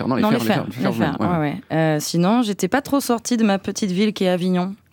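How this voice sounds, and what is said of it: Southern French accent. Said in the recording (French): “mon petit accent ... les AU, c'est compliqué, ouais. Jaune, ouais. Rose. ... on me dit encore t'as l'accent, tu viens d'où?”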